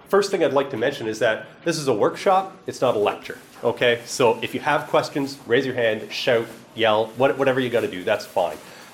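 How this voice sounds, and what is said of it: East Coast Canadian accent. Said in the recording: “I'm told I have an accent. I'm from the East Coast of Canada”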